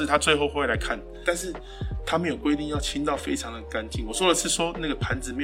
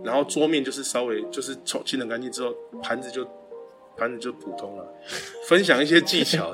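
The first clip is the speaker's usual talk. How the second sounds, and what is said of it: Voice trailing off, getting quieter. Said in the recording (Chinese): “越讲越小声”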